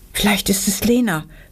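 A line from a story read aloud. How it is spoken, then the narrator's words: Horrified whisper. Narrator (German): wisperte Anna entsetzt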